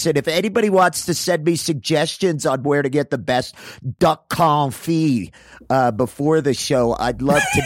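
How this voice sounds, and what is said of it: Imitates another person's voice. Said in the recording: “my like really cool impression of him”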